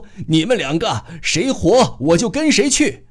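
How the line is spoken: Breathless. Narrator (Chinese): 他又喘吁吁地说

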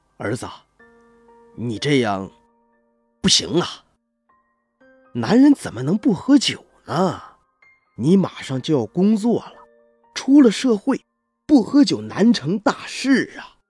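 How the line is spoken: Worried, sighing. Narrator (Chinese): 他叹了口气，忧心忡忡的对我说道

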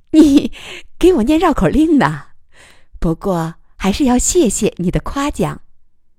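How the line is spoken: Laughing. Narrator (Chinese): 余乐水笑了

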